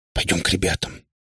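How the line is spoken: Whisper. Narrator (Russian): почему-то шепотом сказала она

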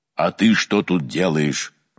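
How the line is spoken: Menacing question. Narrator (Russian): грозно спросил владыка Гавриил

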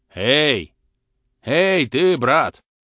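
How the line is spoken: Shouting in turns. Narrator (Russian): кричали по очереди

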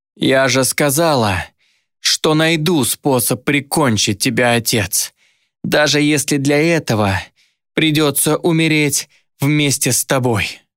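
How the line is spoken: Hoarse rasp. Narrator (Russian): прохрипела Дайна уже своим голосом

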